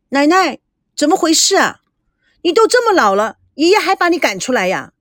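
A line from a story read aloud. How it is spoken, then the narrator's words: Displeased. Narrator (Chinese): 不满地说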